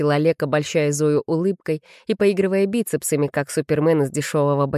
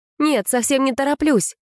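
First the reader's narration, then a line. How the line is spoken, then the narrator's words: Hasty exclamation. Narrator (Russian): воскликнула с поспешностью, показавшейся излишней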